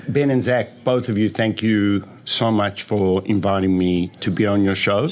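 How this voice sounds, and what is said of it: South African accent. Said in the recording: “thought you were from the Jersey Shore before I said South Africa... I don't know accent so well”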